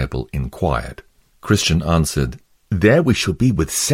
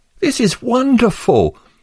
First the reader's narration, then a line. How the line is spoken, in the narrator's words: exclaimed Pliable